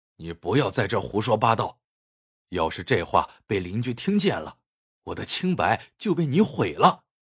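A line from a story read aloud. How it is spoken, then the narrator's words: Angry, hushed. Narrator (Chinese): 他满脸怒火，压低嗓门，不高兴的说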